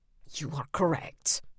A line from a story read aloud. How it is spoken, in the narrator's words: Vlad said, the words barely a hiss